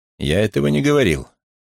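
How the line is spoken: Sharp. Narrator (Russian): резко сказал Стритар

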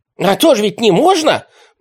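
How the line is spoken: Spluttering shout. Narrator (Russian): брызгая слюною, кричал Трембо

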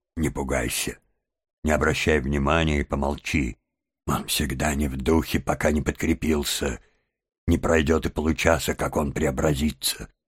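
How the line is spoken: Whisper. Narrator (Russian): мистер Крыси шепнул ему

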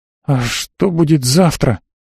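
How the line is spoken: Hoarse question. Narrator (Russian): хрипло спросила Марго

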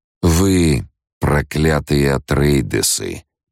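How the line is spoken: Through gritted teeth. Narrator (Russian): процедил он сквозь зубы

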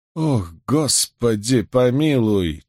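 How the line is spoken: Quiet moan. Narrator (Russian): тихо простонал судья Пауэрс

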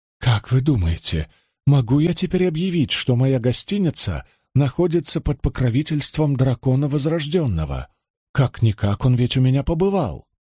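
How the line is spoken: Trembling question. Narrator (Russian): мастер Дилхем дрожащим голосом спрашивал у Томаса

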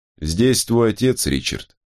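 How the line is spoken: Calm. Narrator (Russian): спокойно сказал он

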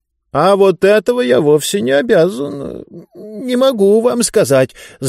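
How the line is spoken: Stammering. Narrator (Russian): запинаясь

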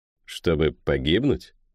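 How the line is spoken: Quiet question. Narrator (Russian): негромко спросил южанин

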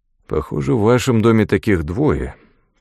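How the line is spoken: Muttered. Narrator (Russian): пробормотал Люк

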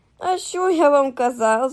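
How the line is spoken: Laughing. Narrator (Ukrainian): засміявся Ганфальд

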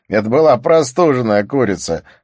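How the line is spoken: Chuckling. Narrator (Russian): хохотнул Скарре

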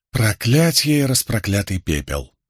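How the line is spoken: Grumbled in a hurry. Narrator (Russian): пробурчал Мэтт, от спешки

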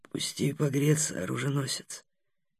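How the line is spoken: Hoarse old man. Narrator (Russian): хрипло проговорил старик

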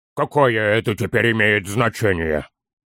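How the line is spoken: Grumbling. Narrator (Russian): проворчал Торин

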